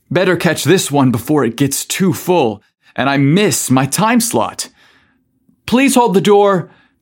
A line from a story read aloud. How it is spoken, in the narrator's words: Casey yelled as he rushed to get in